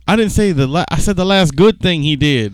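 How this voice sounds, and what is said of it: Put-on exaggerated accent. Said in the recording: “Why are you doing that accent?”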